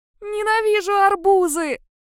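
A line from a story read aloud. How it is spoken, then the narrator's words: Wail. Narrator (Russian): взвыла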